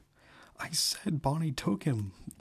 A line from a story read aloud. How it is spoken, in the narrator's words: Jason said, choking out the words